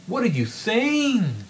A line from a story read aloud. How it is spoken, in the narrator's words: Newman exclaimed